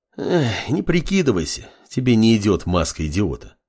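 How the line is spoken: Sighing. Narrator (Russian): вздохнул Фар

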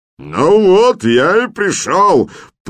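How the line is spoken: Bellowing deep-voiced brute. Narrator (Russian): проревел в ответ бычьеголосый громила

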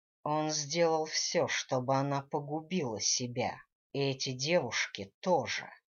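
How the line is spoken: Growled. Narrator (Russian): рыкнул Гвидо

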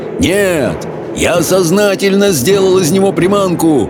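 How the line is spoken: Roar. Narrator (Russian): проревел Хоул

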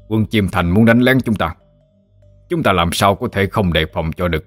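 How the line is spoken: Stern reply. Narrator (Vietnamese): gương mặt nghiêm nghị đáp

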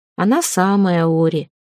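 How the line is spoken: Gloomy tone. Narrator (Russian): мрачным тоном отозвался Лит

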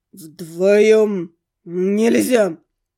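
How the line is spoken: Speech with beastly growl. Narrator (Russian): Сквозь человеческую речь пробивалось отчетливое рычание зверя

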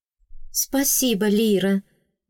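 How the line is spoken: Quiet heartfelt thanks. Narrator (Russian): негромко, но прочувствованно поблагодарила меня девушка

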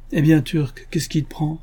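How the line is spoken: Exclamation. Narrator (French): s'écria Elisa

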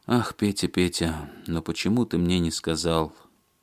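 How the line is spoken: Heavy sigh. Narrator (Russian): Она тяжело вздохнула

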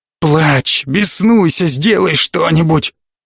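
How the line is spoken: Hoarse near-shout. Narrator (Russian): Его хриплый голос перешел почти на крик

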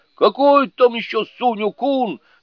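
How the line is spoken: Yelled. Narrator (Russian): заорал

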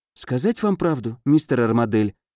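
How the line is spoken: Whispered reply. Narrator (Russian): шепнула она в ответ

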